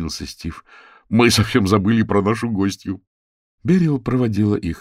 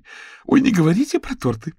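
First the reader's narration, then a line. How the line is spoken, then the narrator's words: Giggling. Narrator (Russian): хихикнула Берил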